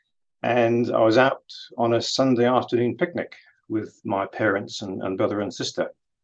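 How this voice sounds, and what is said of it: English accent. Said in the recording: “As you can probably guess from my accent, I grew up in England”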